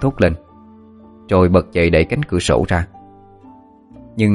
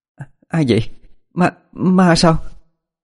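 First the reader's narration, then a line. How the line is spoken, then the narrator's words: Gasping in terror. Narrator (Vietnamese): Ân há hốc mồm, trợn mắt vì quá sợ hãi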